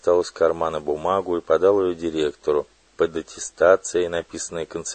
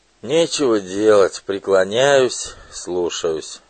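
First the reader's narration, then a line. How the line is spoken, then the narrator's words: Resigned sigh. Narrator (Russian): сказал директор и вздохнул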